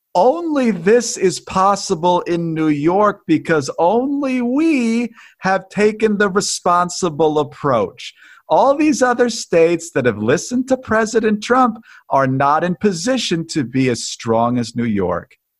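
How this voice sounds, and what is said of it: Condescending Andrew Cuomo impression. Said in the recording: “in his very condescending tone ... that's a scary good Andrew Cuomo impression”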